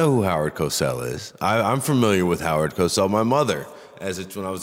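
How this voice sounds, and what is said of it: Usual voice. Nothing is said of it.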